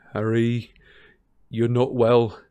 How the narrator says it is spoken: he said shakily

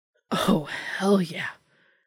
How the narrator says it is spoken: Dean gasped in surprise with a roguish smile

